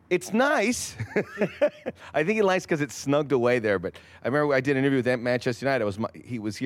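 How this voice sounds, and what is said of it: Usual voice. Nothing is said of it.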